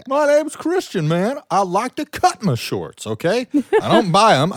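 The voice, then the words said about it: Imitates another person's voice, badly. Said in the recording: “bad impression”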